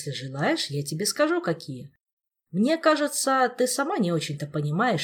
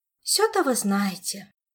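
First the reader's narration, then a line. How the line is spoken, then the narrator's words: Sighing. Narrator (Russian): вздохнула Ольга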